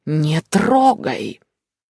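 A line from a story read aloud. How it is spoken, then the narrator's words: Disgusted hissing female elf. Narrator (Russian): с нескрываемым омерзением на лице, эльфийка прошипела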